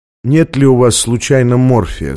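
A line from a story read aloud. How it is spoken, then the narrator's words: Calm voice. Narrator (Russian): спросил он спокойным голосом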